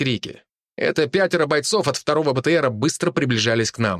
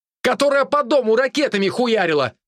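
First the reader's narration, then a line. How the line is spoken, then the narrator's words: Shouted back. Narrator (Russian): крикнул в ответ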